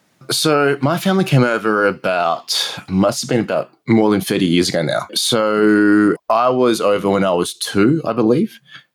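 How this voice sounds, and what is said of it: Thick Australian accent. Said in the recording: “I've got the thickest Australian accent.”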